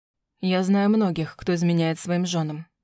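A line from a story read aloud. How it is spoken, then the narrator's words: Plain. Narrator (Russian): сказал он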